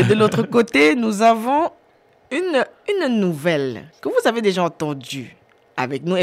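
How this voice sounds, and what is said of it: Usual voice. Nothing is said of it.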